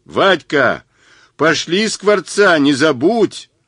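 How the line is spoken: Yelled after someone. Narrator (Russian): Заорал вслед

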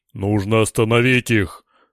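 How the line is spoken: Excited growl. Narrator (Russian): возбужденный не менее подчиненных зарычал Дик

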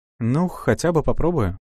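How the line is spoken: Calm, casual young woman. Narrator (Russian): спокойно предложила девушка, словно речь шла о том, чтобы пожарить картошку

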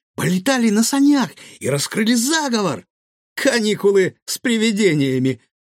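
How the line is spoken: Pleased giggle. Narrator (Russian): довольно хихикнул Гаврош

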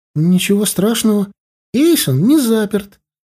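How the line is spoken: Cheerful. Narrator (Russian): радостно сказала Эрли

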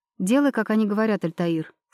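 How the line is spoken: Plain. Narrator (Russian): сказала я

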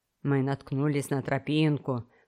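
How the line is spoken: Low voice. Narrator (Russian): вполголоса сообщил

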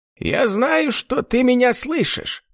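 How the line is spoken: Nasal shout. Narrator (Russian): прокричал гнусавый голос

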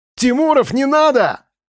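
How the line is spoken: Shouting. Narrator (Russian): крикнул Вадим

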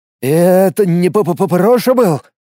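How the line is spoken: Trembling voice. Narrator (Russian): дрожащим голосом спросил Влад

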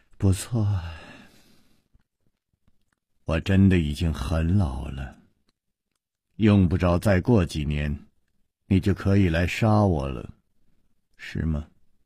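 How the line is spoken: Sighing. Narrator (Chinese): 石观音又叹了一口气说

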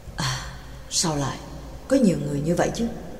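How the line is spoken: Soft-spoken. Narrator (Vietnamese): Pháp sư chỉ khẽ nói

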